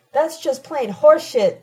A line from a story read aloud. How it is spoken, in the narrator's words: Damon shouts, cutting Tina short and losing his professorial detachment altogether